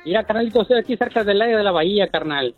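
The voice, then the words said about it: Formal radio announcer voice. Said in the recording (Spanish): “Tiene voz de locutor... ¡Es locutor este vato!... Es muy formal.”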